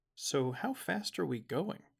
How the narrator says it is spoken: asked

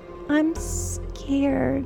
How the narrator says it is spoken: she moans

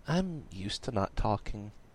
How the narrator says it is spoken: said, looking sadly at the ground

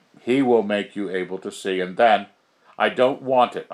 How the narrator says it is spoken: I cried, threatening her almost, my fierceness

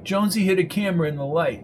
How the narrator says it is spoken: she said, laughing

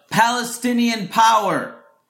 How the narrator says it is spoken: I hear someone yell out

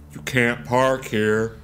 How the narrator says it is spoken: he says

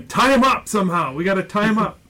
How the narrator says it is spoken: they're yelling

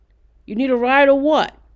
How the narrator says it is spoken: a voice called out

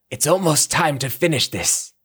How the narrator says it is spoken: Fox cried

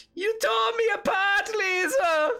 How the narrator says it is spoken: he just shouts out

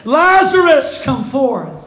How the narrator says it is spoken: he cried with a loud voice

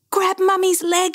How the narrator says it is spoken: cried

